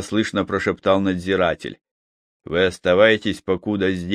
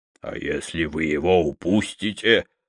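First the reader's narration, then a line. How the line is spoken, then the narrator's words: Angry whisper. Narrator (Russian): зло прошептал исправник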